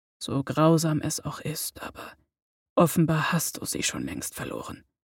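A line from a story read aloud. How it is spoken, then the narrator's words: Soft contradiction. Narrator (German): widersprach leise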